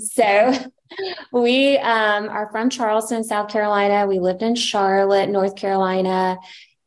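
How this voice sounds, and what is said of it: Slight regional accent. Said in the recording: “I'm sure you can hear a little bit of the accent”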